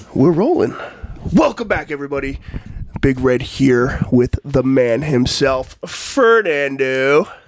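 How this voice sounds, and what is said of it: Congested, slightly sick-sounding voice. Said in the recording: “Sound a little sick. ... I've got this fucking nose thing. ... if I sound a little congested on here, I'm sorry, because I am.”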